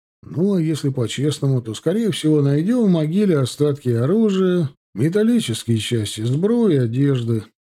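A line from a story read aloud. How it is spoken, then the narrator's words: Deflated sigh. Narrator (Russian): вздохнул Иван, утратив свой задор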